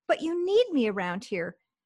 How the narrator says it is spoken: pleading with him, she said

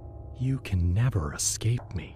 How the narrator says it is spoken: he whispered

